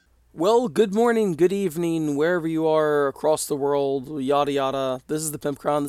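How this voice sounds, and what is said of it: Hoarse, froggy voice. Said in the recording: “my voice has a bit of a frog in it ... a little bit of a weird voice”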